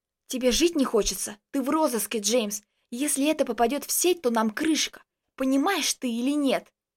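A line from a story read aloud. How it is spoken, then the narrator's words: Hissed into ear. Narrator (Russian): Зашипел мне на ухо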